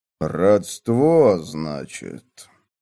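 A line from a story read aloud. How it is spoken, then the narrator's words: Strange voice. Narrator (Russian): Странным голосом повторил Роберт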